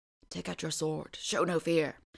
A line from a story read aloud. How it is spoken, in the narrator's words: the horse whispered